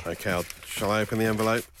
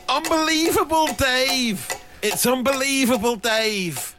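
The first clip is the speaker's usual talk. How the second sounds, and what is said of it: Weak slightly northern English impression. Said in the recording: “Slightly northern. I think he's from the Bradford area. It's not a very good impression.”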